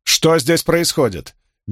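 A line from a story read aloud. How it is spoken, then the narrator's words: Loud question. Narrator (Russian): громко спросила Леандрин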